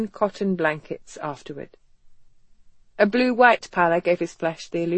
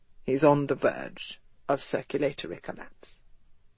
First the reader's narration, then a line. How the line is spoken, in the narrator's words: Havelock said quietly, his expression grave